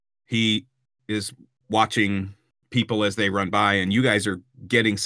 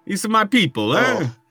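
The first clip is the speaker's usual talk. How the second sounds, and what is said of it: Bad American-Italian accent. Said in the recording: “I don't even know how to do a bad Italian accent. ... That's such American Italian bullshit. ... That's Philadelphia, fucking Philadelphia Italian.”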